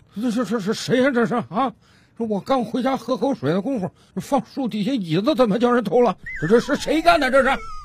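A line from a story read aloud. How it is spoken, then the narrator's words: Old man muttering to himself. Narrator (Chinese): 老大爷 自言自语的嘟囔道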